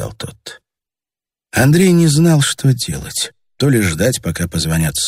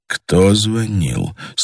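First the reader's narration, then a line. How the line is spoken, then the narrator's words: Hushed question. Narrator (Russian): спросил Андрей тихо, чтобы голос его не долетал до стен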